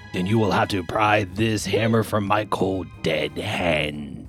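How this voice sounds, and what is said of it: Sing-songy character voice. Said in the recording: “I love your draw impression... It's kind of sing-songy, too.”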